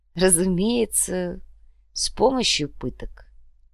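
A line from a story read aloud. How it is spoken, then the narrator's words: Disappointed drawl. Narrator (Russian): разочарованно протянул Схинки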